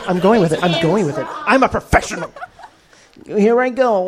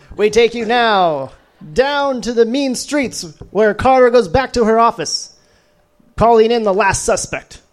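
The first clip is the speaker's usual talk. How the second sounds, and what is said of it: Dramatic narrator voice. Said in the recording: “Narrator voice.”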